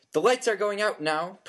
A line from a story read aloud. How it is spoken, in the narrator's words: Percy shouted